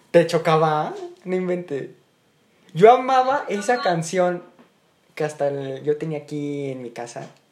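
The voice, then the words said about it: Strong Mexico City (chilango) accent. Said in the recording (Spanish): “Se, te, salió el acento muy cañón ... Se me sale lo. lo. Mexi lo. este. lo chilango.”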